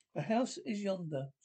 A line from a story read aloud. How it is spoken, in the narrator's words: Scrooge exclaimed